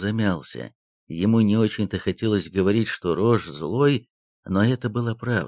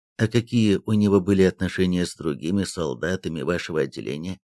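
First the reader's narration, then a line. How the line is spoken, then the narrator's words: Plain. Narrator (Russian): спросил прапорщик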